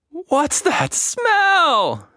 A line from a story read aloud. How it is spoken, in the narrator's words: She shrieked